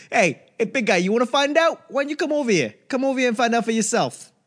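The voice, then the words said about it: Put-on New York accent. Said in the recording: “speak with a New York accent”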